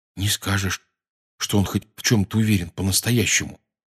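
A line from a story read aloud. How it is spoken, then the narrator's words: Quiet. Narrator (Russian): тихонько сказал Рон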